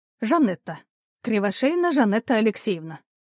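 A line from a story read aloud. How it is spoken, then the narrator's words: Calm tone. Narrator (Russian): ответила она уже спокойным тоном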